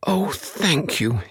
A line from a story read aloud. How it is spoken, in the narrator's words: he cried